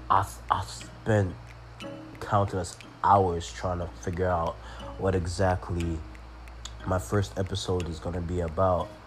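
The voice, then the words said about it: Sick, strained voice. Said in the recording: “sorry about my voice. I'm really recovering from a nasty flu”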